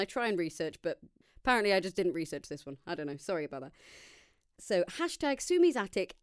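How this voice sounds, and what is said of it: Usual voice. Nothing is said of it.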